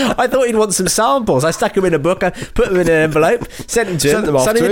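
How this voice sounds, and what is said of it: Usual voice. Nothing is said of it.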